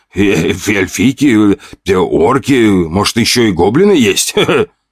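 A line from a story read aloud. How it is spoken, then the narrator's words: Laughing. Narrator (Russian): хохотнул кто-то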